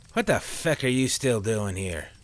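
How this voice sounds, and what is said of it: Thick Irish accent. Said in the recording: “in his thick Irish accent”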